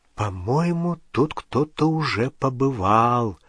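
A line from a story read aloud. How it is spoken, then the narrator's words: Whispered. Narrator (Russian): прошептала Гермиона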